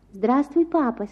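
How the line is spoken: Soft voice. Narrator (Russian): сказал он мягким голосом

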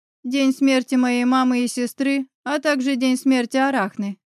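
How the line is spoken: Plain. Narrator (Russian): ответила она

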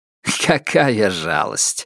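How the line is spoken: Chuckling. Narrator (Russian): хохотнул Итейн

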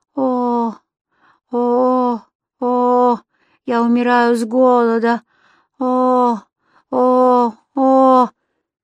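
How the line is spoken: Moaning. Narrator (Russian): тому, кто стонал

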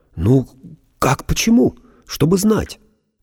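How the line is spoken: Babbling. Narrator (Russian): лепетал Андрей

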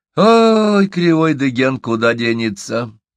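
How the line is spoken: Heavy sigh. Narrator (Russian): тяжко вздохнул Доксо

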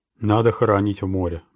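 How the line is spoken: Gloomy. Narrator (Russian): мрачно сказал капитан

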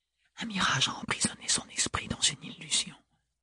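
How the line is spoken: Very quiet whisper. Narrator (French): murmura Ophélie tout bas

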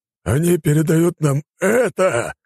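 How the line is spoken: Growling general. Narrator (Russian): зарычал генерал

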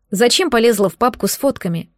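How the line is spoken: Plain. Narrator (Russian): спросила ее

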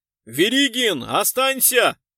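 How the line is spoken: Sudden yell. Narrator (Russian): Вдруг заорал Глузский

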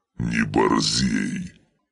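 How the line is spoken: Barked. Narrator (Russian): рявкнул неназываемый

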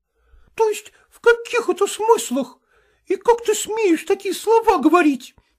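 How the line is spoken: Exclaimed. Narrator (Russian): воскликнула она

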